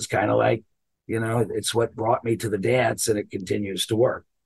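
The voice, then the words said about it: Rough gravelly raspy voice. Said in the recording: “As you can hear, my voice is pretty ... I sound like Tom Waits now ... where the voice has been soaked in a vat of bourbon and hung out to dry in a tobacco barn and then run over by a truck”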